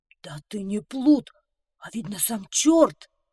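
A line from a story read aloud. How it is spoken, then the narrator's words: King's exclamation. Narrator (Russian): воскликнул король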